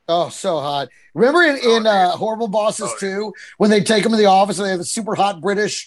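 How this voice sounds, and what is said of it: Usual voice. Nothing is said of it.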